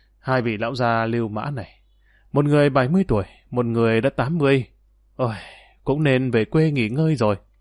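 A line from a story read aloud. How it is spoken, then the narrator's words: Sighing soft mutter. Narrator (Vietnamese): Dương Lăng thở dài một hơi, khẽ lẩm bẩm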